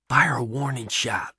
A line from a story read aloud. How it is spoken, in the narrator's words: Pat whispers to Deke